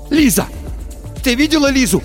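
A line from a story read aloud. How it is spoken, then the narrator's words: Shouting. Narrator (Russian): Закричал Тихон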